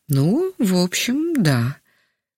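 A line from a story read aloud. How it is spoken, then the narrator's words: Slightly unsure. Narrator (Russian): немного неуверенно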